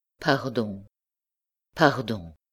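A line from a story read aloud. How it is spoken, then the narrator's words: Murmur. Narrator (French): murmura-t-il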